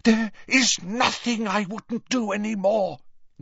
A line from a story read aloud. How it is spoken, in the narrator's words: Narcissa breathed, a note of hysteria in her voice